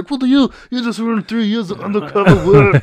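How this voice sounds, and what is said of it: Imitates another person's voice. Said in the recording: “That was my Arnold impersonation ... It was so good.”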